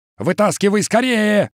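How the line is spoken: Yelled. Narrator (Russian): заорал Каскер

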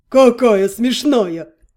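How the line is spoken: Deep bass. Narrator (Russian): пробасил он

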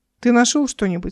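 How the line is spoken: Calm question. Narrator (Russian): спокойно спросил Игорь

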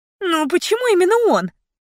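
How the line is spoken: Sharp harsh tone. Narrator (Russian): мой голос прозвучал слишком резко

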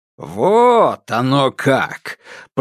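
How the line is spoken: Drawled. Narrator (Russian): протянул урядник

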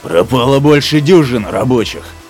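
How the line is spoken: Growl. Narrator (Russian): зарычал Крадж

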